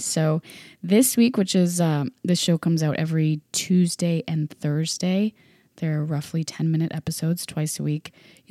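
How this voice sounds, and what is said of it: Sick, under-the-weather voice. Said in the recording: “I am sick. And I'm sure you can hear it in my voice ... I sound a little under the weather”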